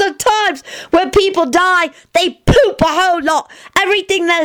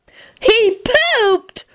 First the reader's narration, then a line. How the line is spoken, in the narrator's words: Teddy squealed happily